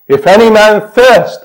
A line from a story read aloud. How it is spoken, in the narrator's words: our Savior said